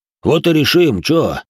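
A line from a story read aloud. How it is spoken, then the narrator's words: Threatening deep voice. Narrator (Russian): угрожающе пробасил Толя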